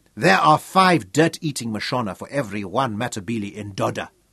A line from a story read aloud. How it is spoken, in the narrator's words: Lookout told Craig bitterly